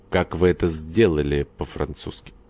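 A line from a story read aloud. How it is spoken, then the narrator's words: Plain. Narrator (Russian): сказал Горданов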